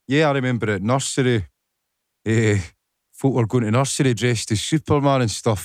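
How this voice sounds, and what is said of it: Scottish accent. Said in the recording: “Elvis with a Scottish accent.”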